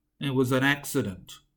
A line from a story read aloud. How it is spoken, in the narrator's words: muttered